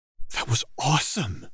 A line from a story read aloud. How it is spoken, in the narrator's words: Anna whispered